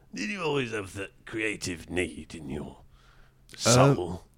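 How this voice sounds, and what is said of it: Imitates another person's voice. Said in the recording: “getting all Parkinson now... That's my Parky impression.”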